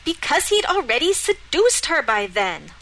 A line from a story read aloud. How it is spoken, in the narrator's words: Lorelei snapped